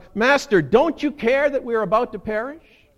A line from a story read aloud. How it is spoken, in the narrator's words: shout